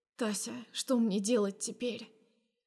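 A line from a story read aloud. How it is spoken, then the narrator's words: Said quietly. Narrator (Russian): Произношу я тихо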